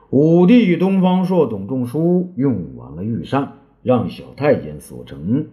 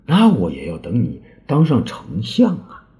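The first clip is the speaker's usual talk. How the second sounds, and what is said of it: Quiet, hushed voice. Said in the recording (Chinese): “江忠却小声的说”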